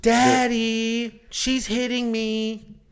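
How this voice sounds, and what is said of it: Imitated girl voice. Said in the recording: “girl voice... Here's my best for a girl voice.”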